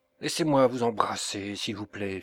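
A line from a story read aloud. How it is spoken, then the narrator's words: Unsteady voice. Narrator (French): fit-il d'une voix mal assurée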